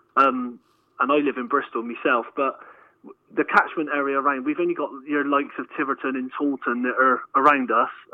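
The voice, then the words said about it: Somerset West Country accent. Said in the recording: “obviously you can tell by the accent down in lovely Somerset”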